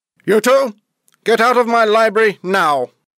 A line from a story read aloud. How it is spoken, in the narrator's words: He shouted